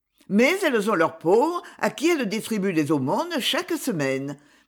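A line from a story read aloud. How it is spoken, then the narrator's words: Sharp protest. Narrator (French): protesta vivement Myrtot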